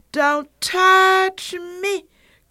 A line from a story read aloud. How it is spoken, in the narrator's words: cried the little fairy-like being